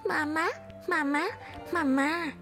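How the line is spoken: Soft, happy little call. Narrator (Chinese): 小东西又跳又笑，然后小小声的对着女娲叫

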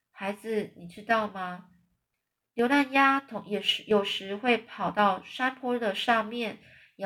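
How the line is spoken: Soft and gentle. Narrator (Chinese): 叶芽 轻声细语地说着

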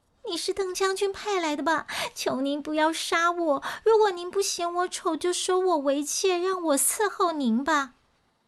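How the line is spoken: Terrified crying. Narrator (Chinese): 妃子吓得边哭边说

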